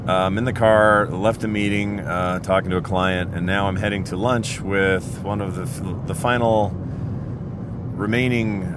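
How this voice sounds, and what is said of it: Rough, worn-out voice. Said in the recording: “my voice is kind of bad. ... Got pretty hammered”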